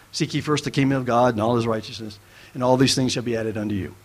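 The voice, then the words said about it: Speaks very fast. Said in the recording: “I say that quickly”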